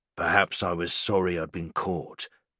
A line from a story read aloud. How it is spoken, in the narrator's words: he growls